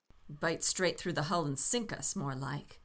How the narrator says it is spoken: James growled

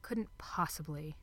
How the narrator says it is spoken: Aziraphale muttered

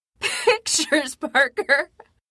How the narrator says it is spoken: Jonah sobbed

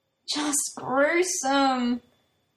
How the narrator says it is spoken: Shindo moans

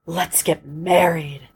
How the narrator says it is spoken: she whispered

